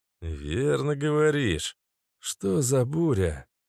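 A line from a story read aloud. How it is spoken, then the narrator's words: Weary question. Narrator (Russian): устало спросил Каша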